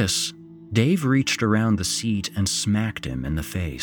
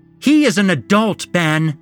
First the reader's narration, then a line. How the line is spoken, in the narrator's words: Penny yelled